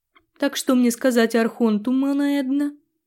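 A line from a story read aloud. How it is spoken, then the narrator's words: Increasingly unsure, nervous. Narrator (Russian): Брауни звучал все более неуверенно и, ярко нервничая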